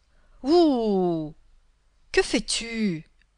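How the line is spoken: Angry devil exclaiming. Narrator (French): s'écria le diable en colère

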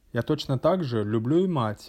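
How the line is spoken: Plain. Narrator (Russian): ответил я

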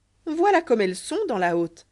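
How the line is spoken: Admiring exclamation. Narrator (French): s'écria Choufleur avec admiration

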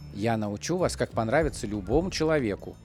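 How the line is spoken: Quiet female voice. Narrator (Russian): негромко сказала Галина Едвиговна

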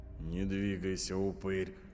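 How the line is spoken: Dry threat. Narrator (Russian): сухо пригрозила Агата

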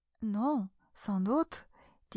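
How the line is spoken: Soothing, caressing. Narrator (French): dit Alice d'une voix caressante pour l'apaiser

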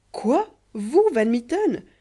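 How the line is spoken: Exclaiming. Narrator (French): s'écria Kéraban

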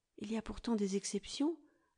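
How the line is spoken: Timid venture. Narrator (French): hasardai-je timidement

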